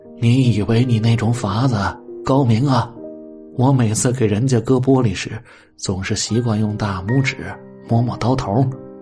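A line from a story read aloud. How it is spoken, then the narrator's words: Old man, smiling. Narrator (Chinese): 他的老父亲微微一笑说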